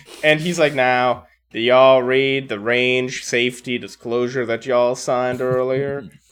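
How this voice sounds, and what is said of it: Generic Texan yeehaw accent. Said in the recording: “Why does he sound like Uncle Ruckus? ... That's Texas much. ... That's my generic yeehaw accent.”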